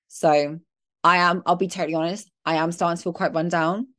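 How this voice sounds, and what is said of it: Slightly sniffly, dry-throated voice. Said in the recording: “You can probably hear it in my voice a little bit ... my throat was like a bit sniffly and getting a bit of a dry throat”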